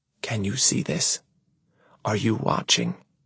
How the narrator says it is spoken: I whisper

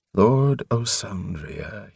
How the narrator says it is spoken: he said evenly

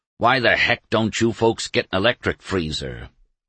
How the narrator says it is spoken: he growled

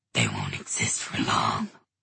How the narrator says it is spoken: hissed the Dantalian demon

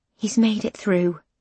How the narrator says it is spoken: she says quietly

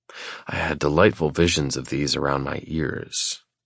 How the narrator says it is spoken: I whisper

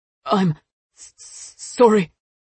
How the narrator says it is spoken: Jamie gasped

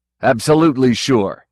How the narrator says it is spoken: Kagan snapped

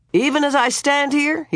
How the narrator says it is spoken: he bellowed

